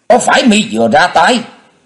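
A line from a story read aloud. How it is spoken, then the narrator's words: Loud demanding shout. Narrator (Vietnamese): Một hòa thượng áo đỏ liền lớn tiếng quát hỏi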